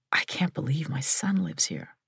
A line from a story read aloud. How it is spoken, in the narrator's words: I said quietly